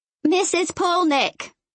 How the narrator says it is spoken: she yells

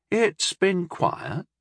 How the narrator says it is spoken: he murmured

